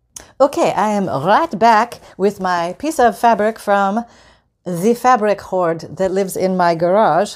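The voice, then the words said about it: Bad put-on French accent. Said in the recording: “I'm apparently turning French today ... the bad accent”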